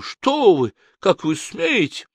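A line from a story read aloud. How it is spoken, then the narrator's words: Sharp cry. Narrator (Russian): Она вскрикнула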